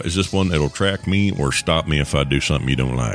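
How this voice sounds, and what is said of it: Put-on southern accent. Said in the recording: “why all of a sudden do I have a southern accent? Because we like to stereotype our southern accented folk.”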